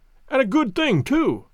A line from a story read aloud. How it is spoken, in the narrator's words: I cried